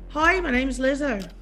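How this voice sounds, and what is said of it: Attempted Irish accent, sounds English. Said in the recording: “in an Irish accent? ... English, but it was pretty good. ... No, I said hoi. ... That's Dublin.”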